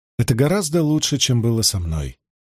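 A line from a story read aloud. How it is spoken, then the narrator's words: Sighing. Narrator (Russian): вздохнула Теодрин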